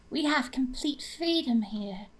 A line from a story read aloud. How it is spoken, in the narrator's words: she purred